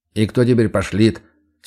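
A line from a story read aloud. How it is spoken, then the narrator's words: Stern snort. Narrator (Russian): Строго хмыкаю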